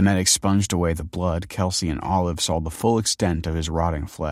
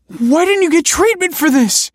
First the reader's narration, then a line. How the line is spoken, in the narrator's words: cried Kelsey